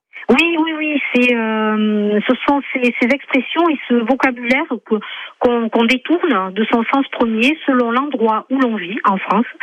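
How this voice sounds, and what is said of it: Slight southern French accent. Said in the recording (French): “Vous avez un petit accent du sud ... De Toulouse, du côté de Toulouse.”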